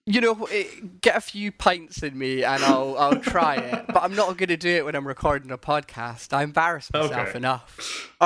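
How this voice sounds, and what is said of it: Scottish accent. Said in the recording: “my weird Scottish accent”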